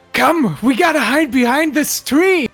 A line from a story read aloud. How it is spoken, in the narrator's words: Zach screams